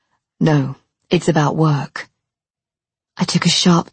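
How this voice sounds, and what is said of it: Usual voice. Nothing is said of it.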